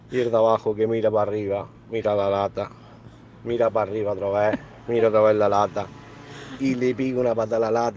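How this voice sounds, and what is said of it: Andalusian Spanish accent. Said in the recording (Spanish): “muy gracioso el acento de Granada o de Almería”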